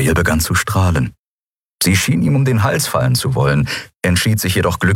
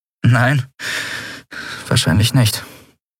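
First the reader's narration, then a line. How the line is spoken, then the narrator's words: Soft, vulnerable answer. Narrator (German): antwortete und klang dabei leise und verletzlich wie eine Schneeflocke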